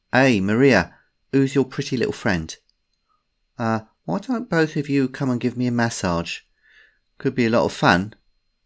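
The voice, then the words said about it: London accent. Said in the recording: “The London accent confirmed it”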